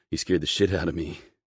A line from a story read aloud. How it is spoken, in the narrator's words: I grunt, my heart still racing in my chest